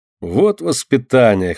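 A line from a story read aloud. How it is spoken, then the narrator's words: Laughing loudly. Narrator (Russian): хохотал тогда Олег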